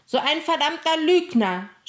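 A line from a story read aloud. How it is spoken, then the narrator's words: Shouting, near tears of rage. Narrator (German): schrie Emil und weinte fast vor Wut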